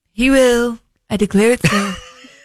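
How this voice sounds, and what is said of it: Imitates another person's voice. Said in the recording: “That's a very good uh, impersonation”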